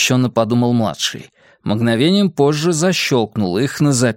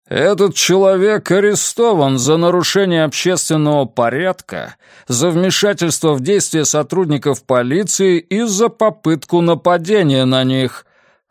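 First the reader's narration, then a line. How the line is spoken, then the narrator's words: Booming trumpet-like announcement. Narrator (Russian): объявил он трубным голосом, который младший помнил по футбольным играм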